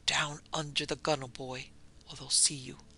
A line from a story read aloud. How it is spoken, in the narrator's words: he muttered